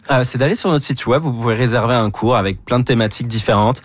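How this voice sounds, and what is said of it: Non-Québécois French accent. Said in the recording (French): “vous êtes Québécois, malgré l'accent.”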